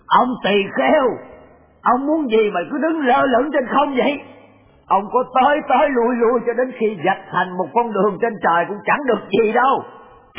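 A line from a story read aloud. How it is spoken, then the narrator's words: Shouted. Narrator (Vietnamese): Ông quát lên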